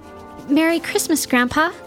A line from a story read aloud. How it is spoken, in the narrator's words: said Zuri, nervously